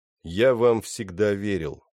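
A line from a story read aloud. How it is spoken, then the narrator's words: Even voice. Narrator (Russian): сказал он ровным голосом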